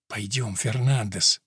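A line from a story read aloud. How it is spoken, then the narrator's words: Whispering. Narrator (Russian): прошептал раб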